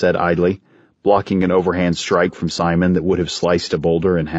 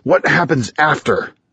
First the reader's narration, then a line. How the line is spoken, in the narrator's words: Simon said, through gritted teeth